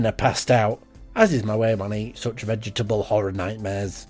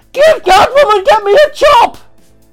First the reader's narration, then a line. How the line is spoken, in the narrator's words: screamed